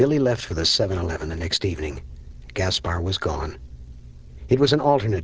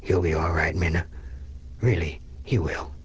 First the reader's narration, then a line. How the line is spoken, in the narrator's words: because it was the only thing he could imagine saying, he murmured